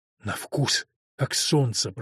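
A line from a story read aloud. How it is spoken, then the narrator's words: Whispering. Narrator (Russian): прошептал Фёрк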